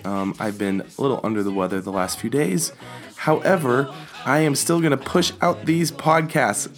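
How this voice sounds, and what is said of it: Raspy, froggy, hoarse voice. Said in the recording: “I do apologize for my raspy, froggy throat voice ... I'm sorry if it sounds terrible on your end ... my voice sounds”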